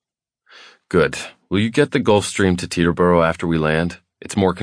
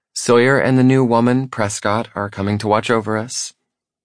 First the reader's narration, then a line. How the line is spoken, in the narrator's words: she says sweetly